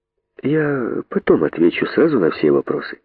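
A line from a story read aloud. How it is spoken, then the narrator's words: Calm, thoughtful. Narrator (Russian): спокойно сказал задумавшийся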